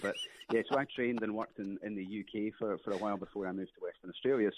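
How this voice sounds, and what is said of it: Scottish accent. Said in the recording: “I do actually have a Scottish accent”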